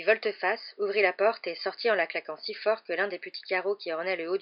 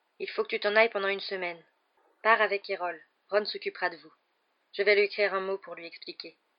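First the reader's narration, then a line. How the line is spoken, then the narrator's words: Gloomy, mournful tone. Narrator (French): dit-il d'un ton lugubre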